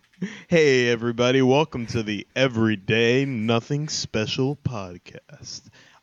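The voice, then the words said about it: Put-on sexy voice. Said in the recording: “the sexy voice ... This is my real voice.”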